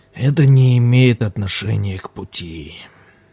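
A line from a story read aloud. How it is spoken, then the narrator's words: Sigh. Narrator (Russian): вздохнул лама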